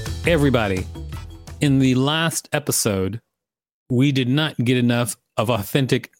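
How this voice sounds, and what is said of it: Usual voice. Nothing is said of it.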